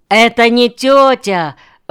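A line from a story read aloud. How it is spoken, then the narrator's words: Sudden shout. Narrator (Russian): вдруг крикнул кто-то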